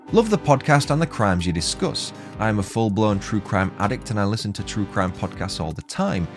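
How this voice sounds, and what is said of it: British accent. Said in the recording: “I love your accent. It is so refreshing and a good change from the normal US and Australian podcasts ... your supposedly UK superiority complex”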